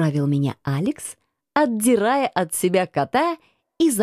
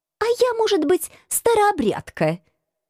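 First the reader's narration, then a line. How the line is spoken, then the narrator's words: Snapping back. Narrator (Russian): огрызнулась я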